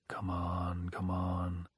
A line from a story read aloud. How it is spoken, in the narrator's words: said softly